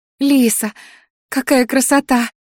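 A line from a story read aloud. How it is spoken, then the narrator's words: Squeal. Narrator (Russian): взвизгнула Ди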